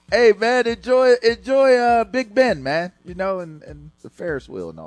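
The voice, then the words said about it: Bad put-on British accent. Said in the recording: “That is such a bad accent. It's offensive.”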